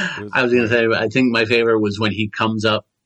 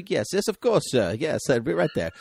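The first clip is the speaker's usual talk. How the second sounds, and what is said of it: Weird put-on British accent. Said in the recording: “he affects a weird British accent.”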